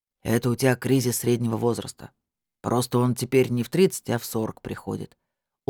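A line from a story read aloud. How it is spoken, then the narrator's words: Glum remark. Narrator (Russian): уныло заметил Олег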